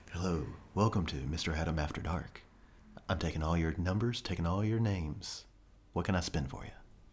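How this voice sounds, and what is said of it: Sultry late-night radio DJ voice. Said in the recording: “my sultry tones ... Get your radio voice on ... That was pretty good”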